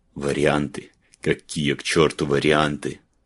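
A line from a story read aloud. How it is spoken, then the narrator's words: Hissed. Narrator (Russian): прошипел Гален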